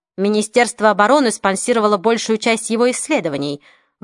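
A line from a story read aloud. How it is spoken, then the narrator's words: Grumbling tone. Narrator (Russian): ворчливым тоном произнес Холборн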